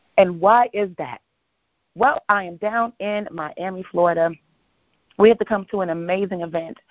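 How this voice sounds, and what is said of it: Slightly hoarse voice. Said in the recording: “my voice is a little bit kind of sort of on the hoarse side”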